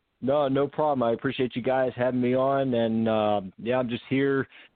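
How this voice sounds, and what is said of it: Pittsburgh-area Pennsylvania accent. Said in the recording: “Are you from Pennsylvania? ... I know that accent, brother ... that is a distinct accent ... born and raised New Kensington, PA, just about 20 minutes north of Pittsburgh”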